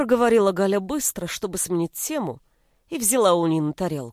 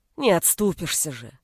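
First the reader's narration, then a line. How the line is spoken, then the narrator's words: Irritated sigh. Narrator (Russian): раздраженно вздохнула Нина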